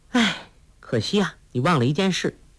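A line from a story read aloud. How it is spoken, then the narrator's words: Sighing. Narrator (Chinese): 黄蓉叹道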